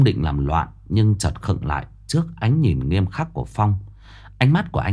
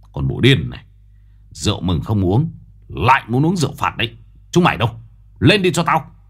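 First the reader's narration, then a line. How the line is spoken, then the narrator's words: Man growling. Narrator (Vietnamese): Ông gầm gừ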